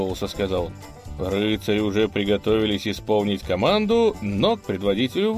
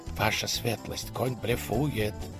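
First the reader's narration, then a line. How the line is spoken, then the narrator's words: Urgent whisper. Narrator (Russian): горячо зашептал он на ухо курфюрсту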